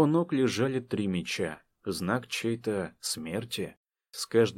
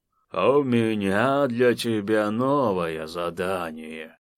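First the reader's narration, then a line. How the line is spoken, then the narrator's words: Lazy offhand remark. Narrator (Russian): лениво обронил Инар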